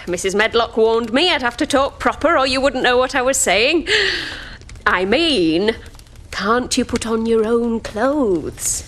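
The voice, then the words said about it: Yorkshire accent. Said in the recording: “That's my Yorkshire accent.”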